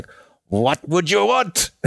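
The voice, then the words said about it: Imitated strong German accent. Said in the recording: “I'm not very good at doing German accents, but he's like got, you know, really strong German accent.”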